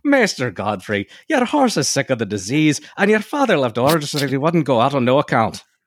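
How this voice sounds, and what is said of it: Put-on Irish accent. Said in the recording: “Oh, sorry, I forgot Irish... It's not a Dickens accent”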